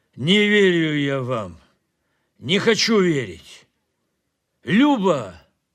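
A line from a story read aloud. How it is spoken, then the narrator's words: Loud calling. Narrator (Russian): громко позвал он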